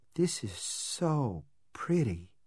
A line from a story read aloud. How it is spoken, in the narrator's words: she said in a soft, awed voice